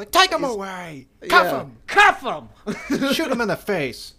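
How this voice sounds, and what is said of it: Angry shouting gruff character voice. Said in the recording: “He's just pissed all the time... almost like a Mo Howard kind of accent”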